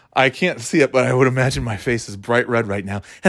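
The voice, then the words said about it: Slightly out of breath. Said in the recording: “I'm a little out of breath from getting up off the couch... Just like I'm out of breath from all this talking.”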